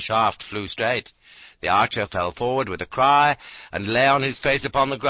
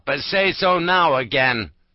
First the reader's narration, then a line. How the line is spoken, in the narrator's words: cried he aloud